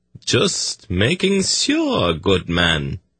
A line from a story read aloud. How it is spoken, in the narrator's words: Tsadi replied coolly